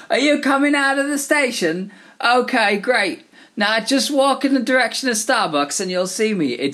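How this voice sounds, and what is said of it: Weak attempt at a Cockney accent. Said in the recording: “I'm going to try and do a Cockney accent ... when I do an English accent, it now sounds like an American doing a bad English accent”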